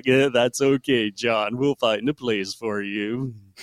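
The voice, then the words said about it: Imitation of RJ Michael's voice. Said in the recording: “such a good impression.”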